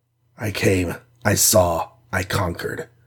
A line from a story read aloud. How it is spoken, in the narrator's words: murmured Iron Man as if he were in school